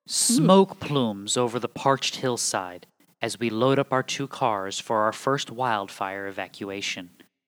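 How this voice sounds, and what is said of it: Dramatic announcer voice. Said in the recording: “I gotta get my good announcer voice ready here”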